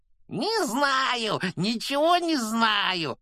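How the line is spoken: Gleeful yelling. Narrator (Russian): радостно заорал Пивз

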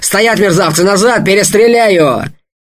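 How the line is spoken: Shouted. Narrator (Russian): крикнул

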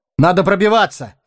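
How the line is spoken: Shouting. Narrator (Russian): крикнул Арагон

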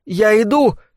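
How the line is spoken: Tired distant call, unalarmed. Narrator (Russian): крикнула она в ответ усталым голосом, доносившимся издалека и не выдававшим особой тревоги

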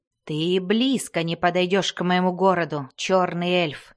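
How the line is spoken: Snarling. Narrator (Russian): зарычал другой всадник

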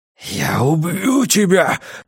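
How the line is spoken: Growl. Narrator (Russian): прорычал Пекка

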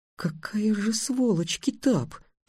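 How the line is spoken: Whisper. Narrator (Russian): прошептала Тиана

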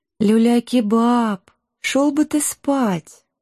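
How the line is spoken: Gentle request. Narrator (Russian): ласково попросила Шелти

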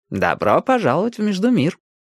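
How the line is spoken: Cheerful greeting. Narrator (Russian): бодро поприветствовал Милос

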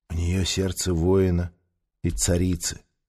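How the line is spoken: Whispering. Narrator (Russian): прошептал он

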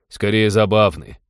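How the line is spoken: Amused snort. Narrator (Russian): хмыкнул пилот

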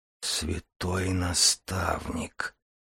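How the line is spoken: Whisper. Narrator (Russian): прошептал Дар

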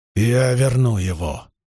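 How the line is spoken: Growling. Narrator (Russian): прорычал он

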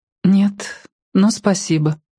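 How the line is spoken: Sad, smiling. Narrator (Russian): она печально улыбнулась ему

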